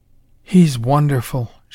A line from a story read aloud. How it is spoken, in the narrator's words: she breathed